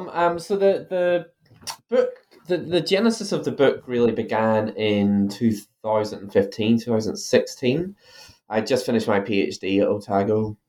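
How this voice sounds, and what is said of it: Irish accent. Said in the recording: “You might be able to tell from my accent, I'm originally from Ireland.”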